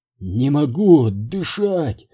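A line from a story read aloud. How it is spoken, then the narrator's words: Groaning. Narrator (Russian): простонал я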